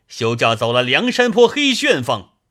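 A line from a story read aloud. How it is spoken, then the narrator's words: Workers shouting together. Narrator (Chinese): 外面做工的人大叫道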